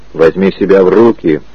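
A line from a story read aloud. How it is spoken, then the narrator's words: Barked order. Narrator (Russian): рявкнул Гарри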